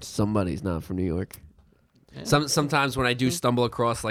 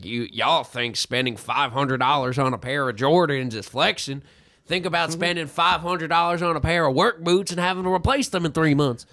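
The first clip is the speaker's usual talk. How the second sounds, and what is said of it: Put-on Southern redneck accent. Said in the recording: “That's my redneck accent. ... That was pretty good, actually. Yeah, if I close my eyes, I really kind of pictured being down in the South”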